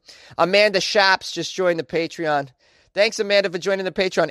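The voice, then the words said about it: Put-on Boston accent. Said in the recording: “a shout-out like Amanda just got in a Boston accent”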